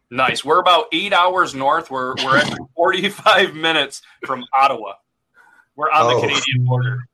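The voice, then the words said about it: Northern New York border accent. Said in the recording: “That's why you hear that A in the accent.”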